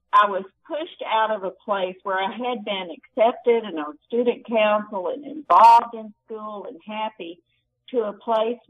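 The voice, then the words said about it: Strong Southern US accent. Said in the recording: “I had this very strong South Carolina accent. Y'all, what you're hearing now is what Texas has done to me. And I'm sure it sounds strong to you.”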